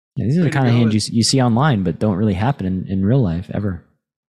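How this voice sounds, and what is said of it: Sarcastic tone. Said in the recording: “I'm being sarcastic about all the things being rigged”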